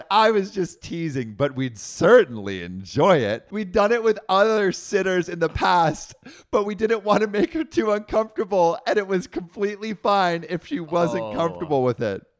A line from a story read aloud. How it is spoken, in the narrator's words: laughed and said